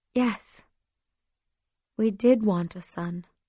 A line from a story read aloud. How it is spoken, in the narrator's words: she sighed